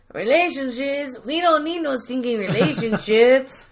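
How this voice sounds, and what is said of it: Put-on Mexican accent. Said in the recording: “in a Mexican accent”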